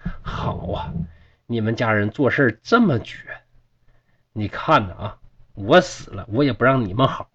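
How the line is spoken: Furious, through gritted teeth. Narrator (Chinese): 祝生，气得咬牙切齿，就说

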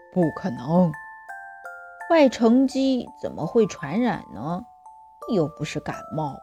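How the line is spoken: Quiet muttering. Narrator (Chinese): 王天天小声跟刘坚强嘀咕

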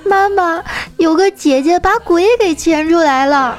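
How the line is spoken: Frightened child crying. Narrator (Chinese): 一小孩儿 直接就吓哭了，一边哭还一边说

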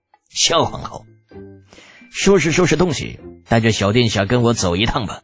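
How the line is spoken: Threatening with fake smile. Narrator (Chinese): 康苏密皮笑肉不笑的 语带威胁

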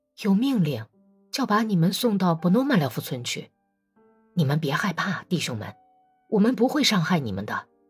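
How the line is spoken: Quiet answer. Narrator (Chinese): 他小声的回答说

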